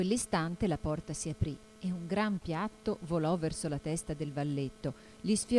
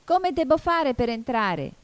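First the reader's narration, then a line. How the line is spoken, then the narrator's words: Shouting louder. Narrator (Italian): gridò Alice più forte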